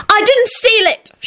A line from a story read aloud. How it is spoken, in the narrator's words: she yelled back and was horrified when tears sprang up into her eyes